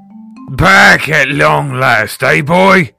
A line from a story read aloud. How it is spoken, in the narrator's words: boomed